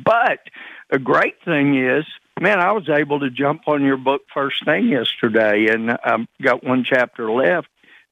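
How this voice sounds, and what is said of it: Slightly raspy voice. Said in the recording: “I'm a little raspy, my voice is a little raspier”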